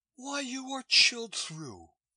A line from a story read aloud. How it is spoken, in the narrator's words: she cried